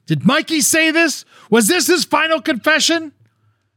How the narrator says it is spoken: He starts screaming at Samson

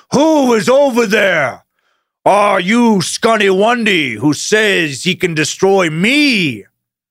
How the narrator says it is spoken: the stone giant roared

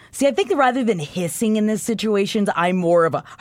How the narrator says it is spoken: she barked

